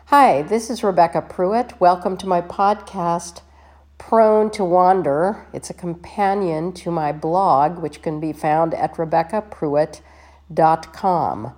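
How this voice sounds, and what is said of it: Congested, stuffed-up voice. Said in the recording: “I'm kind of stuffed up and my voice sounds so weird”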